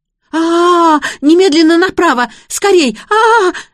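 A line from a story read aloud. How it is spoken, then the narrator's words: Panicked scream. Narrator (Russian): завопила Конкина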